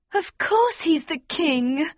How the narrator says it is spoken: Princess Flavia cried

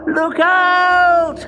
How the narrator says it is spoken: yelled the woodcutter

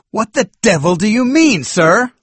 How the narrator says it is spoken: cried indignantly

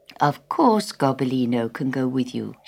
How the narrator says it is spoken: she said kindly

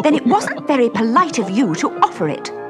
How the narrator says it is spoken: said Alice angrily

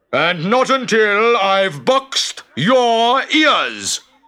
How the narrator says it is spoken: shouted the samurai

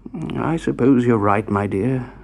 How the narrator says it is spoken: sighed Mr

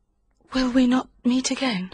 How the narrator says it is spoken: She whispered

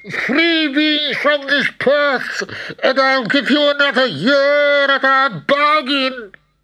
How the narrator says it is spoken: screeched the devil

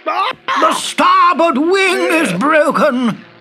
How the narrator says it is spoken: shouted the pilot

